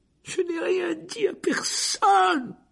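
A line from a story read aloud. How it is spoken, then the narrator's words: Shrill cry. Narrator (French): s'écria Hermione d'une voix aiguë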